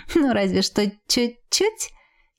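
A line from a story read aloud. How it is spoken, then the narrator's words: Contented giggle. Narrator (Russian): хихикнула я, наслаждаясь теплым осенним деньком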